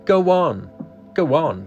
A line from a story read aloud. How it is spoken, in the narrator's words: cried the voices